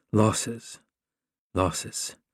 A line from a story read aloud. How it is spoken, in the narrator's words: under her breath